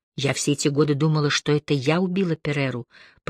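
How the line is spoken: Quiet. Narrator (Russian): произнесла она тихо

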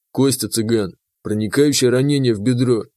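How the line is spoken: Plain. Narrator (Russian): ответил Заур

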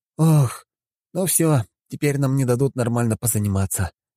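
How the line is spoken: Sighing. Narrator (Russian): вздохнул я

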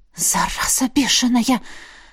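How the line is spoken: Angry exhale. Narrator (Russian): зло выдохнула Лесли

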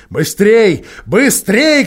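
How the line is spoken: Witch shouting. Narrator (Russian): кричала колдунья

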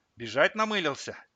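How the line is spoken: Nervous laugh. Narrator (Russian): он нервно хохотнул

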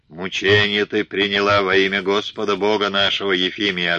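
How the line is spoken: Full-throated bellow. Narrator (Russian): ответил Калистрат и гаркнул во все горло

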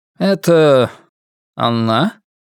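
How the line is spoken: Calm, slightly reproachful question. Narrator (Russian): спокойным, несколько осуждающим голосом спросил он

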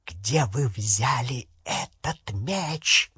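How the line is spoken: Hissing. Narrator (Russian): прошипела она

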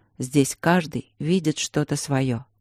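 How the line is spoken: Quiet, father. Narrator (Russian): тихо сказал мне отец

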